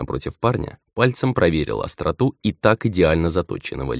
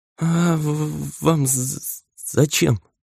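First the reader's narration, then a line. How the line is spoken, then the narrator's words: Stammering question. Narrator (Russian): заикаясь, спросил послушник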